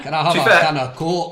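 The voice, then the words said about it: Unconvincing attempt at Scouse accent. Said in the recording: “trying to do a Scouse accent ... It wasn't Scouse ... Highland Lizzie”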